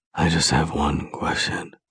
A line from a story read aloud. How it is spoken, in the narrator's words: he whispers into my ear